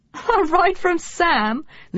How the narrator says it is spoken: Lucy giggled

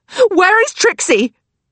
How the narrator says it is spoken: Lily shrieks, asking the question a second time

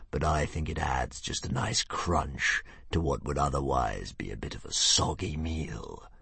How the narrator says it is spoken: sneered the dragon confidentially

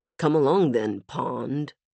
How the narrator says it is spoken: Hero muttered

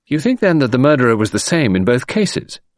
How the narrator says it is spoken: I asked eagerly

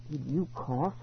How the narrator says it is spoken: I asked softly

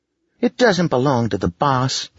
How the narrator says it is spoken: Lacey said indignantly

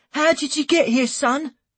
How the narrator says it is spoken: she asked anxiously

